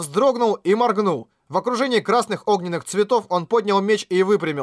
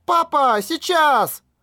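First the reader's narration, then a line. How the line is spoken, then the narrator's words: Shouted at full voice. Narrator (Russian): Юи во все горло прокричала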